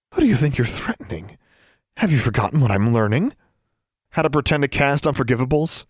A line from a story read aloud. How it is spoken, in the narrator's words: Alexandra scoffed